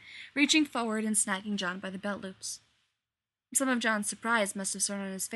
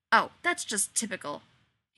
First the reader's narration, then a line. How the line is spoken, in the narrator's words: he snapped